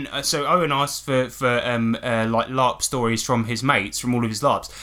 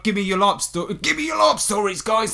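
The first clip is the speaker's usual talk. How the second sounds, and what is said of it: Imitates another person's voice. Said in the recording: “That's my Owen impression,”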